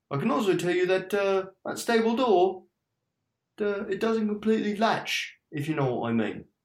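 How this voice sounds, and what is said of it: Inconsistent character accent. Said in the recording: “his accent went all over the place”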